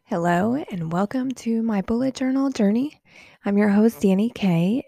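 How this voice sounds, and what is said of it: Congested, sinus-affected voice. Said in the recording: “Please excuse my voice. ... I've been dealing with a little sinus thing here lately.”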